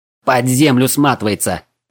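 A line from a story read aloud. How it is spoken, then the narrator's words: Excited shout. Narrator (Russian): азартно выкрикнул Вильхиор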